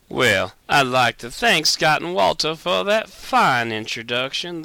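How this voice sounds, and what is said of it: Put-on Southern US accent. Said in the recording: “I'm not sure why I'm doing this with a southern accent, but I hope y'all enjoy it. The accent, I mean.”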